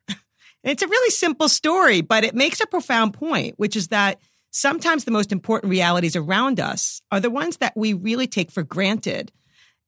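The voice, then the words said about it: New York accent. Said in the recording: “I'm a New Yorker, as you can probably detect from my accent.”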